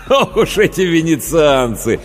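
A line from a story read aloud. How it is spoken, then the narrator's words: Mock scolding after laughter. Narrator (Russian): погрозил он пальцем, вдоволь насмеявшись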